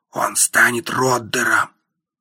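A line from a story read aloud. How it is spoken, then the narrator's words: Smirking private whisper. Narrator (Russian): Игорь усмехнулся и сказал слышимым лишь мне шепотом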